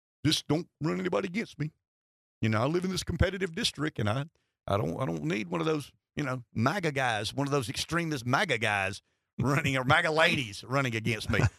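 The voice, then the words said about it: Impersonating how Democrats talk. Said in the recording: “your impersonation of the way Democrats talk”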